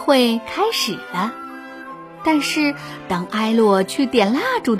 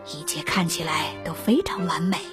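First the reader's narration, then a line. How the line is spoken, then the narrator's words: Low voice. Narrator (Chinese): 菲利王子低声对艾洛说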